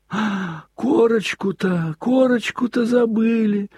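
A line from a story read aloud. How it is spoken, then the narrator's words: Sudden terrified exclamation. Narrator (Russian): вдруг воскликнул он в страшном испуге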